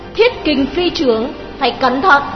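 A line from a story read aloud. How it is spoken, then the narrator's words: Urgent cry. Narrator (Vietnamese): Đào Kỳ vội kêu lên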